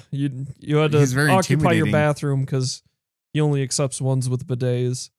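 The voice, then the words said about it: Imitates another person's voice. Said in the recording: “That was probably like the worst Obama accent ever, or voice ever. ... that's the worst Obama impression I've ever heard.”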